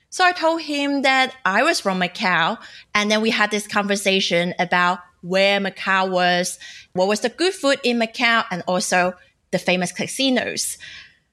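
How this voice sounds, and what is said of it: Cantonese-accented English. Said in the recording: “my Cantonese accent”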